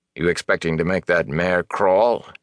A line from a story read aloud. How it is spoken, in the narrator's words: He said dryly